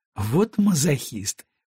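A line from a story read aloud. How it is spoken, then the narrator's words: Scornful snort. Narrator (Russian): фыркнула она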